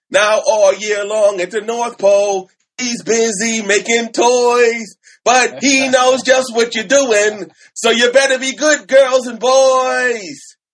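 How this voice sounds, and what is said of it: Sung in a New York accent. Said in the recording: “I like it with the Jewish accent ... It was a New York accent.”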